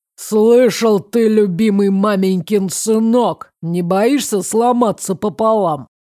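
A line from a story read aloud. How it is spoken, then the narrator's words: Loud. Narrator (Russian): Громко заговорил Бурый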